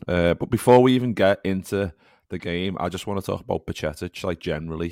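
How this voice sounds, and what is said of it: Worn-out, strained voice. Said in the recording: “as you can tell by my voice, I didn't stop all night”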